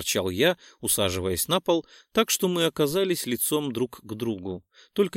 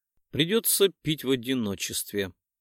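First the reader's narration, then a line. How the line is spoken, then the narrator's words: Sighed. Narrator (Russian): вздохнула Булочка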